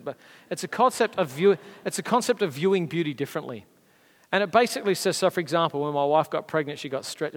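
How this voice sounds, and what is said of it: Australian accent. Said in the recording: “Said with Australian accent ... I can't do an American accent”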